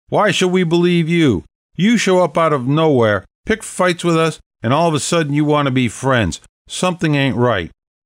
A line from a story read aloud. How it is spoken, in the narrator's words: shouted